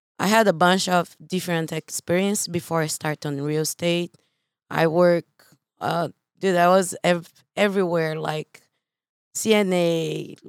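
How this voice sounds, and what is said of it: Slight Brazilian accent. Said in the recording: “I am from Brazil, as you guys can see. I have a beautiful accent. ... It's just a little one.”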